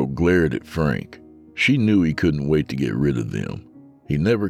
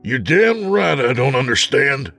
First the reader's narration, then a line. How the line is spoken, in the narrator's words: Frank yelled